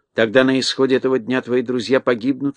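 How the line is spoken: Plain. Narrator (Russian): сказала волшебница

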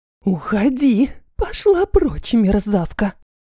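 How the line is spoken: Loud whispered command. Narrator (Russian): Громким шепотом приказала Елена Викторовна

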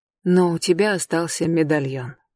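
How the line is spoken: Quiet. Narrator (Russian): тихо сказала она

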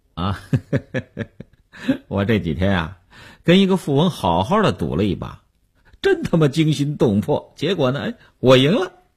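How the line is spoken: Smiling. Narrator (Chinese): 刘文庆笑笑说

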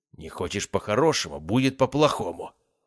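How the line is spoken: Strained, suppressed angry growl. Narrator (Russian): рыкнул мужчина из последних сил, стараясь держать свой гнев

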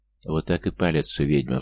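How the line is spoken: Sighed. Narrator (Russian): вздохнул я

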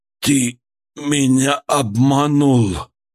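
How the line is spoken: Barely moving lips, hateful whisper. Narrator (Russian): Едва ворочая губами, прошептал Мкрчан, с бессильной ненавистью

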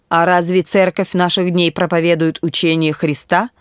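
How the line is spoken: Quick question. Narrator (Russian): быстро спросил Эрнест

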